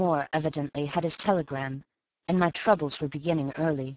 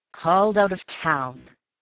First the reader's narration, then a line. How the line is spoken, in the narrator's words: he grumbled